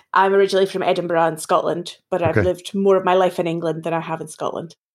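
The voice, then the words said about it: Scottish accent. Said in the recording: “this accent isn't sounding English, it's sounding more Scottish.”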